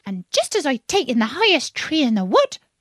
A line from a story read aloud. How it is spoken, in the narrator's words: continued raising its voice to a shriek